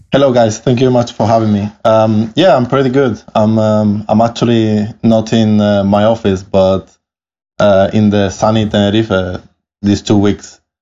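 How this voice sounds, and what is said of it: Italian-accented English. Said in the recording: “I love your accent. ... apologies for my accent from the start, but I'm Italian. But I grew up actually in Canary Islands in Spain. ... My accent is what it is”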